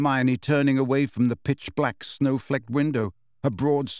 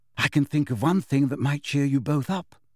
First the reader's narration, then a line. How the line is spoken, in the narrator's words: said Hermione, her voice trembling slightly